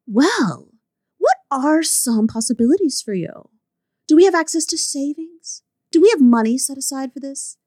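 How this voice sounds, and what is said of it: Pretentious woman character voice. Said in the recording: “put on my pretentious woman voice”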